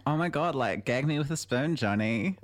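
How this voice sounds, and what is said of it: Half-committed Valley Girl accent. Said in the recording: “I should have done the accent, but I thought... I thought a 50% commit would be enough, but now I'm like, I should have gone all in... Valley Girl Talk”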